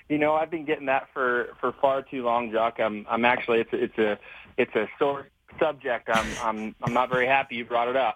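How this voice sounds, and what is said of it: American-sounding accent. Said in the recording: “with your accent, it sounds like you're an American”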